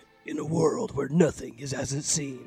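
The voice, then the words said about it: Movie trailer narrator voice. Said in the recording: “I'll be the voice of the narrator guy”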